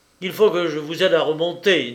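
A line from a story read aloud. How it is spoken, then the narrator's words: Dry, hard voice. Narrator (French): dit-il d'une voix sèche et dure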